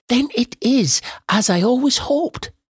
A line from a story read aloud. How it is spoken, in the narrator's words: cried Jane